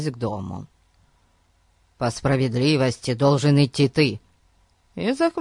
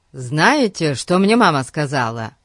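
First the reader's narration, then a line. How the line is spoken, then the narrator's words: Joyful announcement. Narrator (Russian): Радостно сообщил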